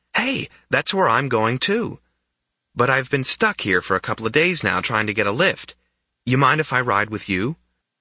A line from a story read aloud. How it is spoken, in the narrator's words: the boy exclaimed